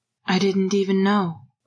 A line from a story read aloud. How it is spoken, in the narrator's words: Regulus said